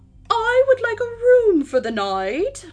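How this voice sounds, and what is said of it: Fake English accent. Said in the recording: “in my best fake English accent. I don't know why I went with the fake accent,”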